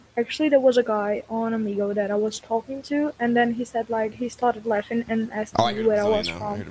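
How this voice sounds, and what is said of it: English-sounding accent, slight Brazilian slur. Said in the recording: “You have an English accent ... I kind of hear the Brazilian a little bit, the way you, like, slur some of your words”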